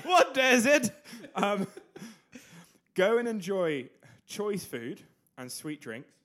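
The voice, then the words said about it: Put-on British accent. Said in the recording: “I'm going to guess he had a British accent.”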